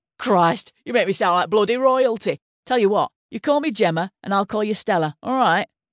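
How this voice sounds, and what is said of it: Northern English accent. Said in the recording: “she said in the northern accent that made her the darling of the tabloids.”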